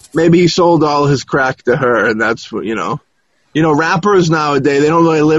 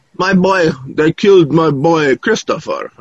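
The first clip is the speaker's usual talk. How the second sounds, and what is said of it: Imitates another person's voice, mumbly thick accent. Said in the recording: “Biggie's mother had that weird accent ... she kind of was, like, mumbly like he was ... Like that thick kind of, I don't know, accent type thing.”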